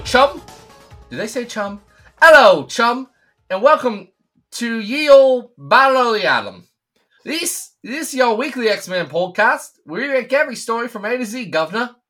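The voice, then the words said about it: Poor put-on British accent. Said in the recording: “That was quite the attempt at a British accent there ... No, it was a bad one, actually.”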